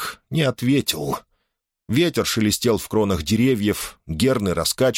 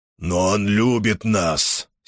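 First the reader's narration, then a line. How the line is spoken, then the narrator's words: Angry declaration. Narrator (Russian): сердито заявил Серк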